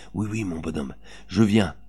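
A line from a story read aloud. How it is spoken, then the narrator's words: Low voice. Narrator (French): Elle lui disait à voix basse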